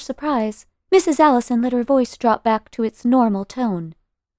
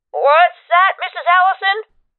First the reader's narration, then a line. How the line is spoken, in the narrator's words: Babcock said loudly